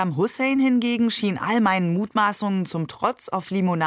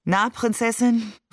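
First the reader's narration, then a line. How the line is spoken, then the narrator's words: Tired, smiling question. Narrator (German): fragte müde lächelnd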